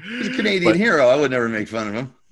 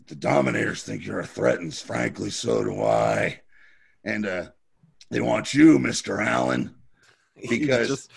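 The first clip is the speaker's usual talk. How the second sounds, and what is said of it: Imitates another person's voice. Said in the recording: “You have a really good impression of him.”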